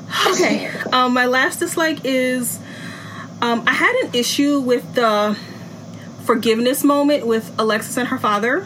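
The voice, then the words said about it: Out of breath. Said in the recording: “I'm out of breath because I had to go run and get my cord from my computer”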